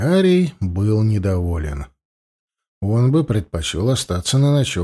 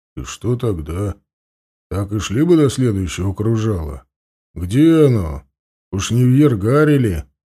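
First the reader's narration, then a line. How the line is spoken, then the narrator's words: Gloomy question. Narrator (Russian): мрачно спросил Анил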